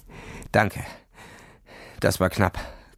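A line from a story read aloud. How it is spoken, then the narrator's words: Breathless gasping. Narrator (German): keuchte er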